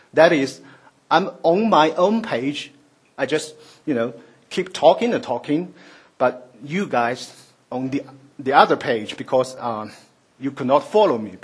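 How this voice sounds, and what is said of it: Chinese-accented English. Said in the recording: “my strange accent ... the English is my fourth language. It ranks after Shanghainese, Mandarin, and Cantonese ... I could not help speaking English with this, you know, mysterious mixed flavor of those spoken Chinese, especially when I am excited and nervous”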